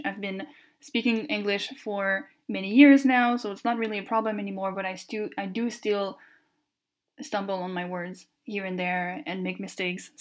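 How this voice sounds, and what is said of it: French Canadian accent in English. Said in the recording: “maybe you've been noticing the accent already. I am French Canadian, so my first language is French ... the little accent”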